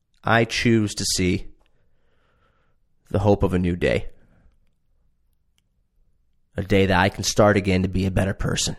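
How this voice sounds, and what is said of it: Emotional, moved speaking voice. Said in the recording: “Sorry, just getting emotional.”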